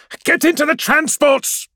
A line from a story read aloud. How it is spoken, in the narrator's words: she yells